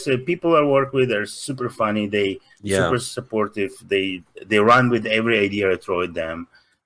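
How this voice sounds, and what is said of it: Russian accent. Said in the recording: “I'm Russian. My accent, I cannot pronounce stuff.”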